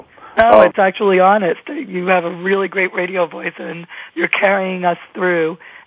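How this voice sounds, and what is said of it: Hoarse voice, laryngitis. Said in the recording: “I'm not my voicey self ... I'm not sounding like me ... the laryngitis”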